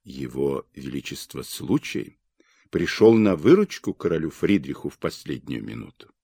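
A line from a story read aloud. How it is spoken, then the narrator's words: Group whispering. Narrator (Russian): В группе иностранных представителей шептались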